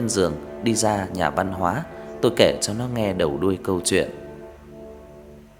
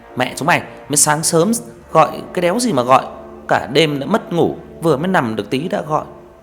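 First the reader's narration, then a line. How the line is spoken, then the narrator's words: Groggy angry shout. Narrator (Vietnamese): thằng Hợp lồm cồm bò dậy quát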